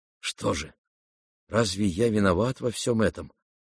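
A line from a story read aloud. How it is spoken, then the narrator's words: Dazed muttering to himself. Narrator (Russian): бормотал он про себя, почти не сознавая своих слов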